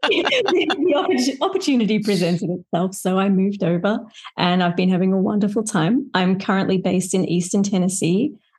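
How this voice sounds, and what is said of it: Australian accent. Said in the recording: “as you can tell from my accent ... I am Australian born. I was raised there”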